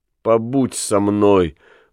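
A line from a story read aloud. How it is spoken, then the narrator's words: Pleading through tears. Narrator (Russian): просит Нелли, плача и улыбаясь сквозь слезы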